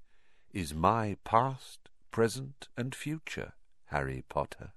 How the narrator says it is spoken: said Riddle softly

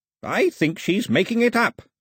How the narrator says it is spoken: Ataba snapped

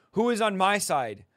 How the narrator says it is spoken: shouted

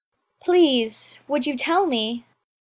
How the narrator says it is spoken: said Alice, a little timidly, for she was not quite sure whether it was good manners for her to speak first

